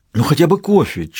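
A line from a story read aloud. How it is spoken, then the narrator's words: Near pleading. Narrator (Russian): чуть ли не взмолился Матос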